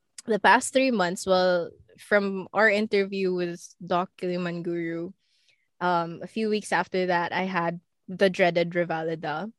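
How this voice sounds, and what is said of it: Voice still affected by illness. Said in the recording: “Sorry for my voice. I was sick for the past week”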